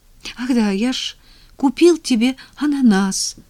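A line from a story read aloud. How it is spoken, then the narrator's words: Exclaimed. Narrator (Russian): воскликнул Женя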